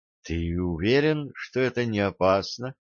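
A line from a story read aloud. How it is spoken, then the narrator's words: Dejected question. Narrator (Russian): Упавшим голосом Кит спросила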